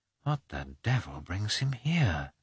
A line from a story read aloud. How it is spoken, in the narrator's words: muttered Levin to himself